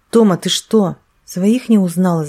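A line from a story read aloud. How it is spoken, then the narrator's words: Shouting. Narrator (Russian): закричал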